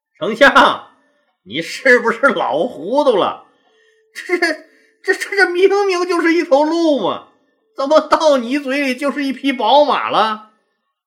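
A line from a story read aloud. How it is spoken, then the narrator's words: Feigned seriousness. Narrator (Chinese): 赵高故作正色道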